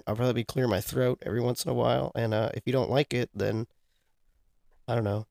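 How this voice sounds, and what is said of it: Nasal, congested sick voice. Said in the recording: “I'm very sick. So, my voice is going to sound a little different ... you sound nasally”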